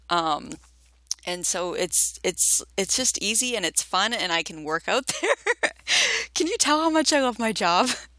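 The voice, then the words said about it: Excited, enthusiastic speech. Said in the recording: “you sound so excited”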